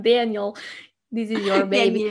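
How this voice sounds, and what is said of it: Put-on Russian accent. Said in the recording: “Remember she was Russian? ... she was involved with like some Russian man. That's why I was using an accent.”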